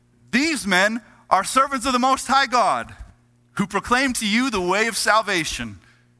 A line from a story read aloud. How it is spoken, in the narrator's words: she is shouting